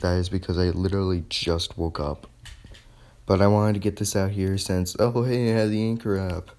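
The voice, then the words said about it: Hoarse, tired-sounding voice. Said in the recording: “God damn, I'm losing my voice... I'm extremely tired”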